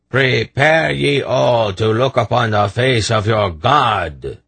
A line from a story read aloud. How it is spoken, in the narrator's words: the Grolem announced in a large voice